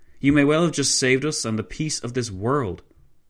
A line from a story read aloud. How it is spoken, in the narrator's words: von Leto Vorbeck exclaimed